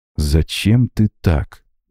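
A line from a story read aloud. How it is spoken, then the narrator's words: Slow, trembling with indignation. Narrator (Russian): медленно проговорил Макс, дрожащим от негодования голосом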